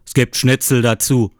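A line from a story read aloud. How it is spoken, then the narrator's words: Father calling from background. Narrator (German): ruft mein Vater von hinten ins Telefon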